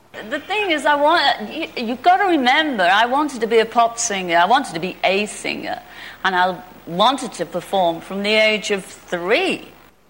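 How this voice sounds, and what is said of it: Scouse accent. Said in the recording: “with a lovely Scousy accent”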